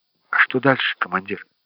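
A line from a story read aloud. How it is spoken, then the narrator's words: Quiet question. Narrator (Russian): негромко спросил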